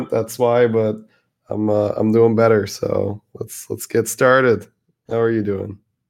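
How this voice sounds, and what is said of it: Slightly sick, altered voice. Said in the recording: “I'm a little under the weather. I'm coming over a flu or something like that. So my voice is a little different.”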